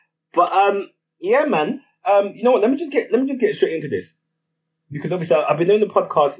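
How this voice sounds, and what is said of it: Usual voice. Nothing is said of it.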